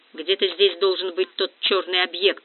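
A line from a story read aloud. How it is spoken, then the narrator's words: Muttered. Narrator (Russian): буркнул Вихров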